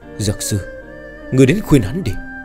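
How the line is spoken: Sudden conflicted sigh. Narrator (Vietnamese): Trưởng Thôn sắc mặt hết sức phức tạp, đột nhiên thở dài một hơi

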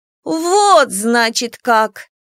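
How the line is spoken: Drawled by a swamp spirit. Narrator (Russian): протянула кикимора

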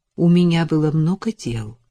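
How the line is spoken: Even voice. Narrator (Russian): ровным голосом сказала она

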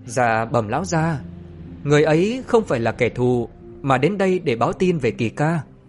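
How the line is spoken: Smiling. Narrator (Vietnamese): Trại Ngô Cơ mỉm cười

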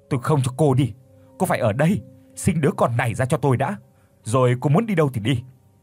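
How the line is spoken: Frantic near-shout. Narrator (Vietnamese): Tuấn điên cuồng nói như hét lên

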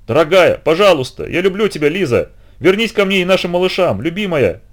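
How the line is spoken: Shouting at full lung. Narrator (Russian): Он кричал во всю силу своих легких

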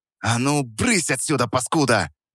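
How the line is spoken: Hissing. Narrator (Russian): Прошипел я

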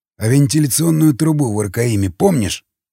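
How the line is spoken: Hmphed. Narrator (Russian): хмыкнул Илья

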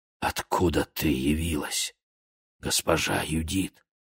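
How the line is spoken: Whisper. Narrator (Russian): прошептал

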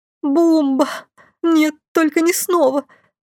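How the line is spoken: Moaning. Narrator (Russian): простонала я

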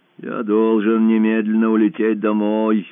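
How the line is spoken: Gloomy repetition. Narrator (Russian): мрачно повторил Гайдо

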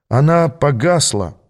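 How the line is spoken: Dejected, gloomy voice. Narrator (Russian): уныло проговорил

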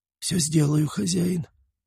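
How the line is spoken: Hoarse wheeze. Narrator (Russian): прохрипел косой

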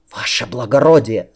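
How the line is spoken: Whisper in ear. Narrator (Russian): зашептал ему на ухо

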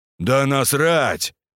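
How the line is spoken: Boomed by big man. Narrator (Russian): прогудел здоровяк

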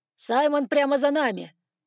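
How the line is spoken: Dragon shouting. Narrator (Russian): прокричал дракон

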